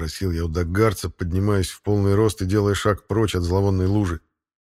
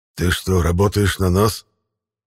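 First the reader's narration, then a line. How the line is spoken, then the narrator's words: Hoarse surprised half-whisper. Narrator (Russian): Даже в хрипящем полушепоте послышалось удивление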